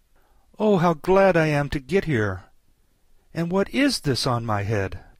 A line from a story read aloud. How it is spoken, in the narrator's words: she exclaimed in a tone of dismay